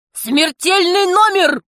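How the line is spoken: Shouted. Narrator (Russian): закричал он

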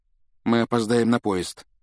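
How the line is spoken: Dejected voice. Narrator (Russian): упавшим голосом проговорил он

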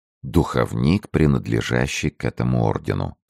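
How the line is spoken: Calm. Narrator (Russian): сказал Арамис также спокойно

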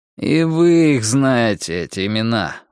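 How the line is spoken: Tired hunter. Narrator (Russian): устало сказал охотник

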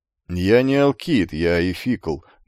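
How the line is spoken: Grumbled over shoulder. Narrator (Russian): буркнул атлет через плечо

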